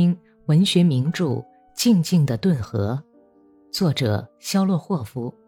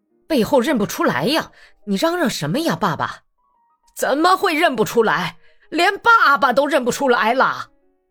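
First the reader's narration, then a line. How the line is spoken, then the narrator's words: Furious, old man. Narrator (Chinese): 老头子竟大发肝火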